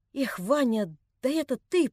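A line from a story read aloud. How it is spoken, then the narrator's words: Unsteady voice. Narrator (Russian): проговорил он неровным голосом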